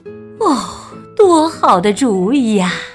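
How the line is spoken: Resigned sigh. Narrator (Chinese): 猪爸爸和猪妈妈不想生气，于是他们叹息道

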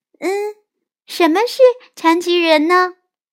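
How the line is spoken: Quiet question. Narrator (Chinese): 安娜小声问

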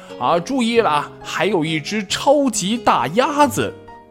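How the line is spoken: Loud shout. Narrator (Chinese): 大声的喊道

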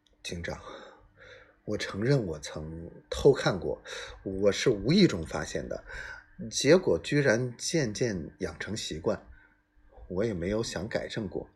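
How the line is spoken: Low voice. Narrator (Chinese): 艾德加低声说

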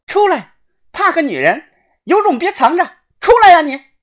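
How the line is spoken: Loud shout. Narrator (Chinese): 小轩 大声的喊

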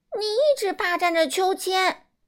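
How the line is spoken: Shouting. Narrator (Chinese): 凯蒂也叫起来

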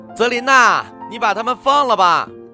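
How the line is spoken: Calling out. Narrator (Chinese): 他们对着院子里的我喊

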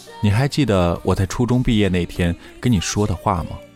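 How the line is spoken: Flat, indifferent. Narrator (Chinese): 淡淡的说

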